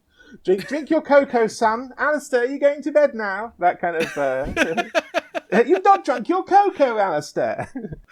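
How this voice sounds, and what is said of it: Put-on English accent. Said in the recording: “Why am I being English on this show”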